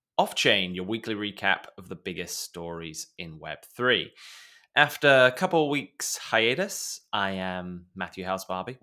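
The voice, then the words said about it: British accent. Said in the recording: “that sound of your distinguished British accent”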